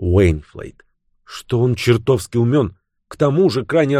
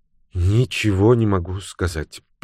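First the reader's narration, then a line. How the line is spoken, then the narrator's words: Woman muttering. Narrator (Russian): пробормотала женщина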